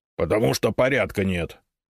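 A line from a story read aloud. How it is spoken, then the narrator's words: Rude retort. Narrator (Russian): грубо возразил Толстопятов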